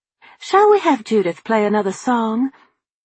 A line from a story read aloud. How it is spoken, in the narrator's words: Randolph chirped